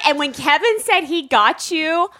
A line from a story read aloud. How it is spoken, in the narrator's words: I squealed